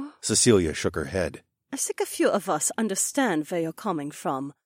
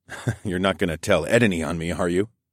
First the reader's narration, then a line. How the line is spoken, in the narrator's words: I chuckled